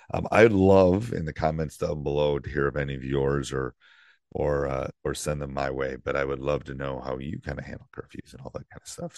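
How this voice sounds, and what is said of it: Croaky, frog-like voice. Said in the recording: “apologize for my voice... I do sound like the Frog”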